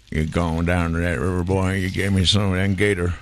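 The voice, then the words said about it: Put-on Southern American accent. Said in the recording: “If I do American, I go all the way.”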